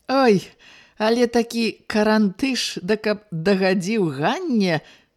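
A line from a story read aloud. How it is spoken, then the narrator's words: Loud guffaw. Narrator (Belarusian): зарагатаў Падзерын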